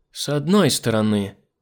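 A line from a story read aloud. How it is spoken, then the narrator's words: Sighing. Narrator (Russian): вздохнула Нора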